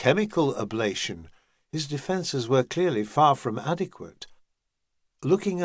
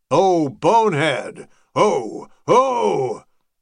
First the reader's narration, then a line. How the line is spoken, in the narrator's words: bellowed some lunatic